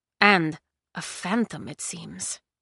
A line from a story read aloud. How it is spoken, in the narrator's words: the old man murmured